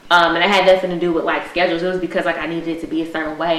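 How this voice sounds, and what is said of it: Fast, slurred tipsy speech. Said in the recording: “my drinks are kicking, and that's why I'm talking so fast and I'm slurring.”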